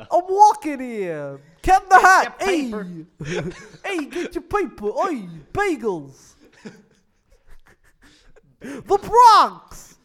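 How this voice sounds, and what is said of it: Exaggerated old-style New York accent. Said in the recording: “What is that accent? Where's he from? ... Brooklyn, New York ... Is he from like the 1940s as well?”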